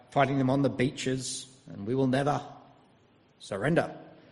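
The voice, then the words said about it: Poor Winston Churchill impression. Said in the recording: “terrible Winston Churchill impersonation”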